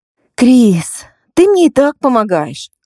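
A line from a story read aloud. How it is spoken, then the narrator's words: Sigh. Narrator (Russian): вздохнула Лина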